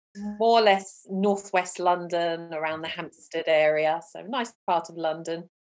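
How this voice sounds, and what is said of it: Speaks with a noticeable accent. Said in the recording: “I can detect an accent.”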